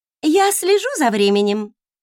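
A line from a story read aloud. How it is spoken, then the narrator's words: Cheerful announcement. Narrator (Russian): бодро объявила Оливия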